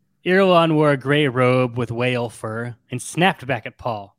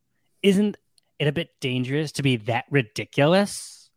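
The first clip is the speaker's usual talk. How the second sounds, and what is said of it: Valley Girl character voice. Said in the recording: “The Irulan Valley Girl voice... She's 100% a Valley Girl.”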